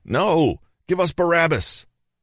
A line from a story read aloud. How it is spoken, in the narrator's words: the scribes started shouting